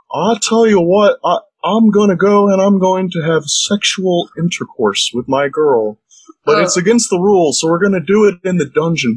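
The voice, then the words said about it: Hank Hill cartoon voice impression. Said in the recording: “the British Hank Hill ... You're pretty good at that impression”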